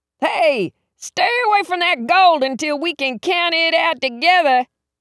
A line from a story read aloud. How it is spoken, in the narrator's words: he yelled